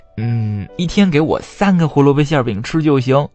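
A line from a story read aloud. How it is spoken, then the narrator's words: Laughing. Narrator (Chinese): 小灰兔笑着说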